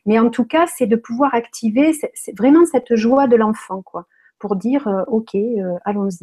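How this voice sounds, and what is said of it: Strong singsong southern French accent. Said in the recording (French): “ton bel accent. Là, tu nous amènes au sud ... tu as vraiment un accent très prononcé ... c'est beau, ça chante, ça chante. C'est chanté”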